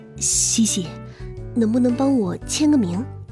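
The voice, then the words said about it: Quiet, hushed voice. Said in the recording (Chinese): “小声的说道”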